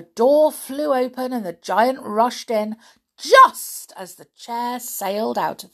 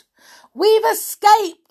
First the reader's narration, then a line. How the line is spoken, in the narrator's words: shouted Peter